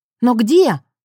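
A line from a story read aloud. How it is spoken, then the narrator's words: Exclaiming. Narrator (Russian): воскликнула она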